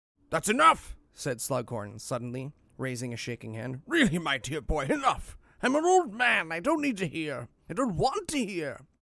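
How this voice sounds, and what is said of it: Performed character voice while reading. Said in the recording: “Forgive my terrible impersonations”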